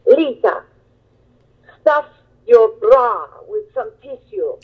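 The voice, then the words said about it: Thick Italian accent. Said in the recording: “in her thick Italian accent”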